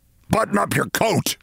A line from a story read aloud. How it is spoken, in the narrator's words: he snapped